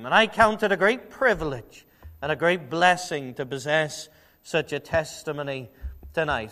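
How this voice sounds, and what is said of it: Liverpool English accent. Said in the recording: “my strange accent ... I'm from England ... I'm from Liverpool as well”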